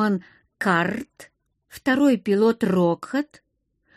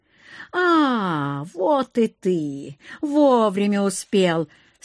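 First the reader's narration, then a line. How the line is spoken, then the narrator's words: Drawled with heavy sarcasm. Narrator (Russian): с невероятным сарказмом протянул Акир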